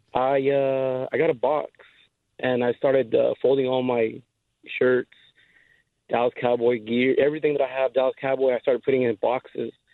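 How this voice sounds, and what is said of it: Hoarse voice. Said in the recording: “my voice is kind of hoarsey because I was yelling at the TV”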